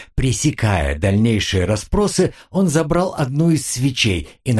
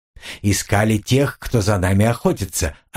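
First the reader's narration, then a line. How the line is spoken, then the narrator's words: Plain. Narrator (Russian): ответил Джека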